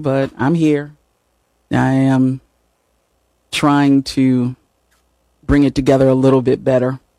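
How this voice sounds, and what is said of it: Hoarse, raspy voice. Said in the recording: “I'm a little hoarse, a little raspy”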